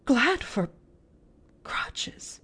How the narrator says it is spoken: Miss Polly choked back a sob

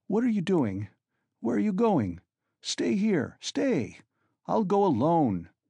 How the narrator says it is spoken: he cried in cowardly vexation, and almost resentful

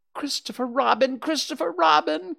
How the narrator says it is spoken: cried Piglet

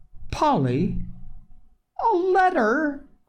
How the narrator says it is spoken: cried Mrs

